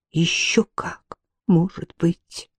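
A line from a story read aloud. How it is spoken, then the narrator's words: Barely audible reply. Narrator (Russian): Чуть слышно отозвалась Ирма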